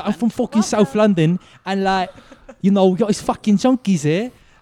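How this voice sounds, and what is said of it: Put-on Essex English accent. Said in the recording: “that is so Essex”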